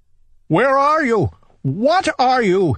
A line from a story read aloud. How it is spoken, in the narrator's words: he cried